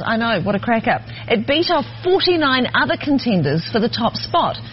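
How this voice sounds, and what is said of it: New Zealand accent. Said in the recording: “a New Zealand news team talk about these accents”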